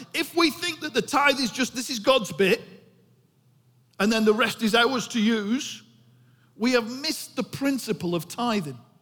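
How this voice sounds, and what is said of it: Bolton English accent. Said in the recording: “That's really hard with a Bolton accent, that word. Holy.”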